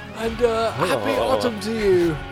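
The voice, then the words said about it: Lazy English accent. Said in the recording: “it was a lazy English accent.”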